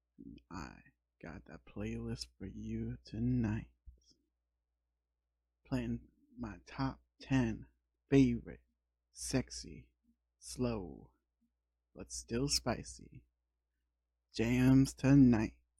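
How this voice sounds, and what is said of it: Sexy voice. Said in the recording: “putting on my real sexy voice”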